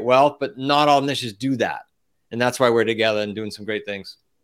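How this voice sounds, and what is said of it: Accent dropping the R sound. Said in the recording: “heard the accent there, remember it's SMOT with an RT”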